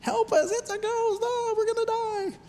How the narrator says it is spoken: they are squealing like elementary school girls

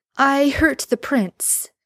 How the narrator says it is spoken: Merlin blurts

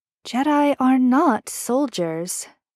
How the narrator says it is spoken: Leia sighs

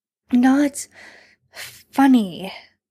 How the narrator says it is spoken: Sam says breathlessly

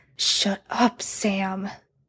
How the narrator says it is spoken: Dean growls

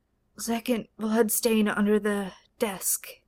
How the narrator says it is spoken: Sherlock muttered in his sleep

